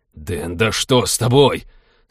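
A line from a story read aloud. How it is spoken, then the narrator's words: Sharp outburst. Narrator (Russian): Сорвался пилот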